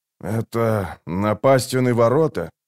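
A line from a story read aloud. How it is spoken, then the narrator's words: Muffled question, warrior. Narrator (Russian): глухо спросил воин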